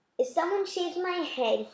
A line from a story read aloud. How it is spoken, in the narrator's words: he whispered